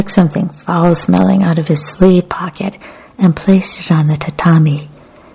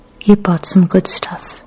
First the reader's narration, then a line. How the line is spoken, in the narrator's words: Kikuko said in a gentle voice that didn't betray any emotion